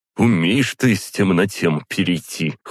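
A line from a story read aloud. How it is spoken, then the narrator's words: Snorting. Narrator (Russian): хмыкнул он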